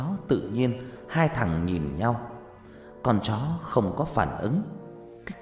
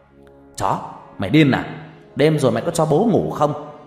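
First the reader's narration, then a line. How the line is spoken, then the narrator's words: Very loud angry shout. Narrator (Vietnamese): thằng Dương hét rõ to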